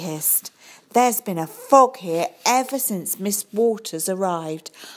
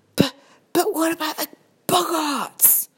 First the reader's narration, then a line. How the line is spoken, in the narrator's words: She gasped